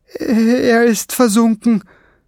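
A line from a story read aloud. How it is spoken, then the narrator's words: Groaning. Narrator (German): stöhnte Kiesbart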